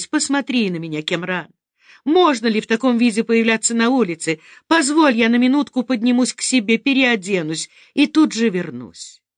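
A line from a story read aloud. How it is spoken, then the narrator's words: Pleading. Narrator (Russian): Фериде взмолилась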